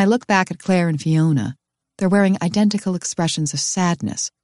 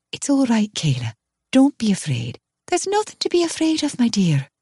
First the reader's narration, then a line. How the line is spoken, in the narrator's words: Claire says gently